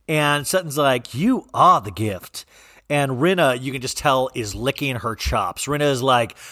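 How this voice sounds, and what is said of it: Usual voice. Nothing is said of it.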